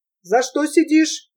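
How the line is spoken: Sharp question. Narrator (Russian): резко спросил

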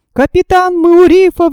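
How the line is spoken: Exclaiming. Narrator (Russian): воскликнул Джон

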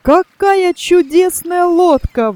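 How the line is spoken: Exclaimed. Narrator (Russian): воскликнул Тони

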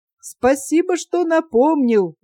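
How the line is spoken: Cheerful inner thought. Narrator (Russian): весело подумал о петухе Кузьма

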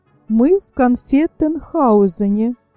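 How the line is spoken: Plain. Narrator (Russian): сказал Щелкунчик

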